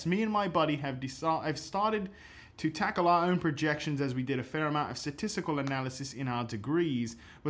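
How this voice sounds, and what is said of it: Put-on accent. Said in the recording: “you're asking me to do this accent”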